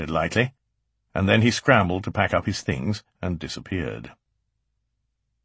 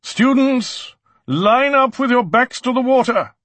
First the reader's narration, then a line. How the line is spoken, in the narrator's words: she boomed